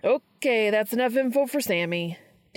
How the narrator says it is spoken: Dean yells at Cass

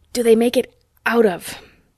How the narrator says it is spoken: said Ronnie hoarsely

